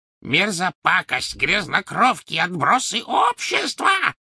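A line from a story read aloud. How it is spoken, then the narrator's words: Shrieking. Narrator (Russian): завизжала она им вслед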